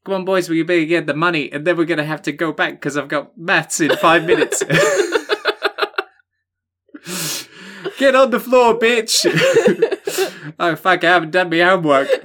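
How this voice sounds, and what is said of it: Put-on New Zealand accent, fading. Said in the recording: “You lost the accent there at the end. ... let me know, New Zealand listeners”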